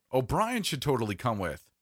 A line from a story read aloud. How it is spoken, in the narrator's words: Jerry blurted out